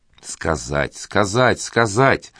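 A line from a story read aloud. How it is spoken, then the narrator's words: Old woman's spiteful hiss. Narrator (Russian): злобно процедила сквозь зубы старуха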